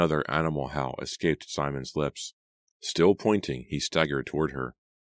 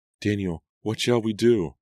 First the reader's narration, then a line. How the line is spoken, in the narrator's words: Nora cried, but her words were drowned out by yet another howl from Simon and by Angelica's shrill cries